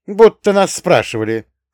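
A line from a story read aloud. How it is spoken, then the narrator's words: Snort. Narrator (Russian): фыркнула Таня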